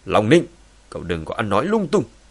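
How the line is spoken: Angry shout. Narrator (Vietnamese): Long Tường giận dữ quát

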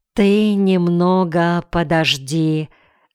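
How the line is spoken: Sigh. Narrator (Russian): вздохнул дядя Кмоль

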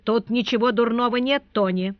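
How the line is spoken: Stern reply. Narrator (Russian): строго отвечал консул

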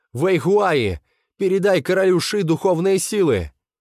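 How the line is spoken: Shouted. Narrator (Russian): Хэйли крикнул

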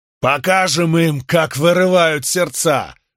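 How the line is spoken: Roared. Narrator (Russian): взревел Спартак

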